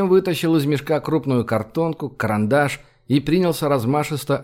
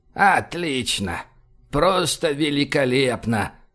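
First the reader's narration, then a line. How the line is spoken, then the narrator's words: Sad mutter. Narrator (Russian): пробормотал он грустным голосом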